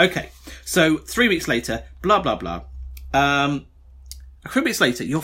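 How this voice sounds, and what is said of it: Usual voice. Nothing is said of it.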